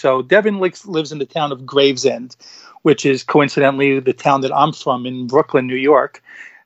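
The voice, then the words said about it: New York accent. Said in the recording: “I know you can't tell from the accent that I am from New York”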